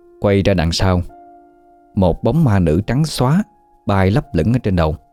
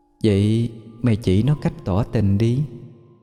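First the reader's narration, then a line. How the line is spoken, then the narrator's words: Soft echoing voice. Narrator (Vietnamese): cái giọng âm vang khe khẽ phát ra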